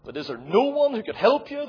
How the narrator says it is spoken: the bishop asked

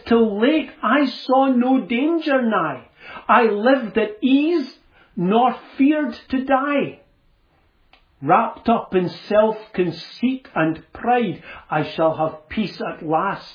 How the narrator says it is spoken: cried

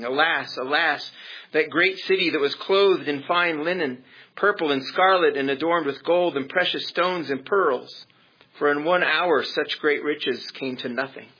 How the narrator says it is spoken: The merchants of these things who became rich by her will stand at a distance for fear of her torment, weeping and wailing and saying

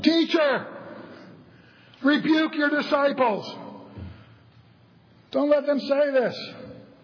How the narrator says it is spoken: They yell out above the crowd

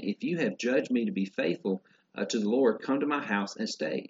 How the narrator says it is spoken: she begged us, saying

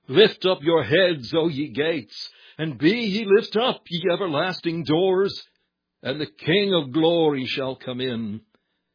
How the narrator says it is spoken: the bright ones of the sky came to meet him, and cried

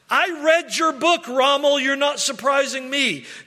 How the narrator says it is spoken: he kept shouting this sentence

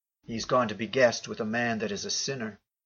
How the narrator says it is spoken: they all murmured, saying

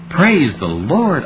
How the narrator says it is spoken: I exclaimed

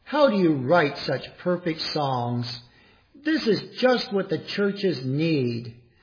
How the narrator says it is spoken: Bradbury exclaimed

